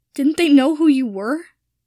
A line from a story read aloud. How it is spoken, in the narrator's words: Draco asked, his voice shaking